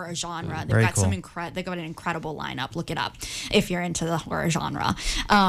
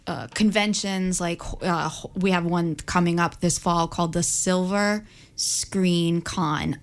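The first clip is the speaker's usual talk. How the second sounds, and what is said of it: Slow, careful speech. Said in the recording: “I said that slowly because it's a tongue twister for me”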